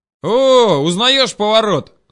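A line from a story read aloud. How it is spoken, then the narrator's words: Sudden yell. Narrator (Russian): заорал вдруг Шурик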